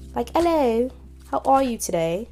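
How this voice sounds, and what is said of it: Attempted British accent. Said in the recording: “a British accent. Well, trying to at least.”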